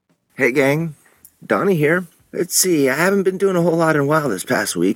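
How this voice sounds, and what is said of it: Sick, under-the-weather voice. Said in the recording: “If you can tell by my voice, I've been a little under the weather”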